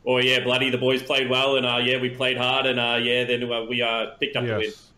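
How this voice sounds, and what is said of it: Put-on Australian accent, burly athlete. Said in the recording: “my Australian impression ... like a big burly rugby or footy player comes on and they're like”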